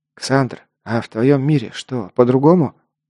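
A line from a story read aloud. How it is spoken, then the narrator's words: Quiet question. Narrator (Russian): негромко спросил идущий рядом Лок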